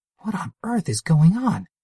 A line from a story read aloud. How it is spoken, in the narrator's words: Steam Girl regained her wits and cried